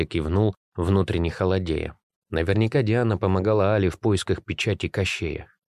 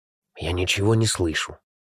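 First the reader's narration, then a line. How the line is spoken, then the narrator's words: Whispered. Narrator (Russian): прошептал Никита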